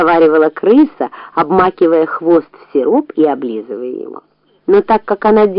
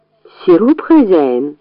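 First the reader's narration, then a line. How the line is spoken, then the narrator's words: Calm answer. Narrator (Russian): спокойно ответила крыса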